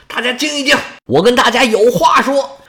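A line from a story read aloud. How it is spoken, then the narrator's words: Commanding shout. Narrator (Chinese): 大将军冲着士兵喊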